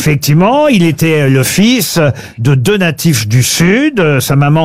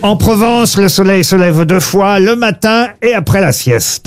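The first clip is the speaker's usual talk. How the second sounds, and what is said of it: Light southern French Provençal accent. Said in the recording (French): “Vous avez utilisé un petit accent... puisque ça parle du midi en Provence”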